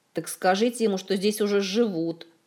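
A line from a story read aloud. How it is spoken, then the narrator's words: Grumbling. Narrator (Russian): проворчал Кантор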